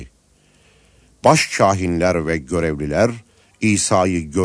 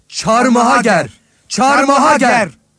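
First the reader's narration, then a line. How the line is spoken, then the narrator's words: Crowd shouting. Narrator (Turkish): diye bağırdılar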